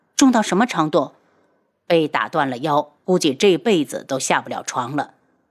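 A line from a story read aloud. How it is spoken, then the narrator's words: Slightly cold. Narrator (Chinese): 轩辕志声音有点冷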